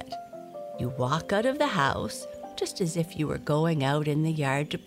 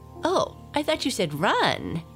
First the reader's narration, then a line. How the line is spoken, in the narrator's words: exclaimed Blackie